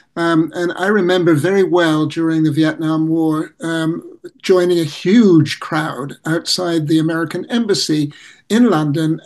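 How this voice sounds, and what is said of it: English accent. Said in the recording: “You could probably hear from my accent that I'm originally from England”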